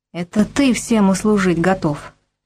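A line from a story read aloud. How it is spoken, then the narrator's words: Furious whisper. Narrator (Russian): яростно шепнула она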